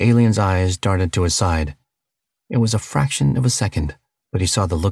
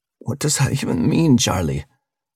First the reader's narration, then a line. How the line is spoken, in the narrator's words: Siobhan said with a pained laugh